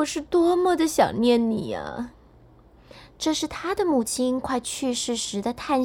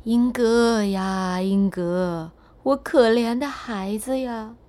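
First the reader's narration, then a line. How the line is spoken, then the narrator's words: Sighing lament. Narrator (Chinese): 他听到了一声叹息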